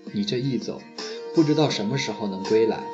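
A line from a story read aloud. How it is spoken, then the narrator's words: Sighing. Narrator (Chinese): 水花叹息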